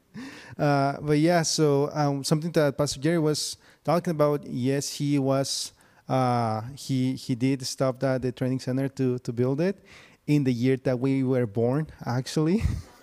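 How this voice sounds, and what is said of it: Mexican Spanish accent. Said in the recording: “my beautiful accent, I am Mexican from Tijuana”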